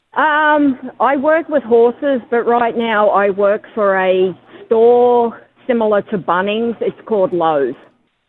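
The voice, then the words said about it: Strong Australian accent. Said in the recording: “you've still got a very strong Australian accent”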